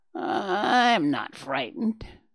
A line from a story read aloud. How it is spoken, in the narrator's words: the grasshopper retorted in a raspy voice